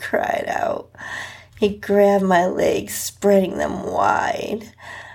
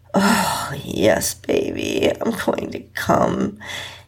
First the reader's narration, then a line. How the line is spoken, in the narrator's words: he moaned